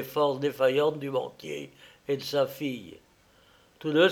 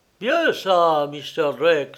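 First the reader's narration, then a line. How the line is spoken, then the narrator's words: Exclaiming Canadian man. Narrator (French): s'écria le Canadien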